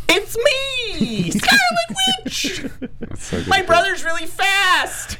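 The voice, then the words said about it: Mock Scarlet Witch accent. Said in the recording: “all of our accents better than Elizabeth Olsen as Scarlet Witch in Age of Ultron.”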